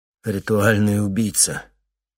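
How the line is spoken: Contemptuous snort. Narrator (Russian): Лаки презрительно фыркнул

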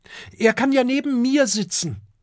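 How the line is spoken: Calling out. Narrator (German): ruft Kokosnuss

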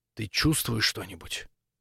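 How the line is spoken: Whispered question. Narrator (Russian): шепотом спросил у Максимилиана Цапля

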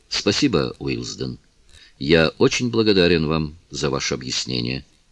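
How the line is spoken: Quiet reply. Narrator (Russian): тихо ответил он

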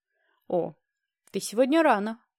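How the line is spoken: Smirking. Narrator (Russian): хмыкнул

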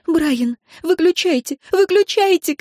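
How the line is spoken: Sobbing shout. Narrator (Russian): кричала Энн, и император понял, что она рыдает

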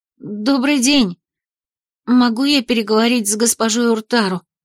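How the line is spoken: Trembling voice, asking. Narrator (Russian): дрогнувшим голосом спросила

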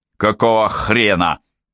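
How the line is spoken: Barked. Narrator (Russian): рявкнул Кевин

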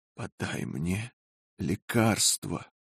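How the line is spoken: Barely audible voice. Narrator (Russian): сказала еле слышным голосом

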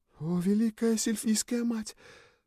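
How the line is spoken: Rapturous whisper. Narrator (Russian): прошептала служанка с восторгом

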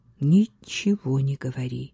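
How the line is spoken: Quiet reply. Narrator (Russian): так же тихо молвила она в ответ

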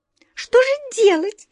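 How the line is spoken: Anxious squeak. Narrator (Russian): с тревогой пискнули черные мыши

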